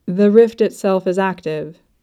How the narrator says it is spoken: he says

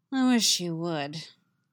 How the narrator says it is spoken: Yennefer says dryly

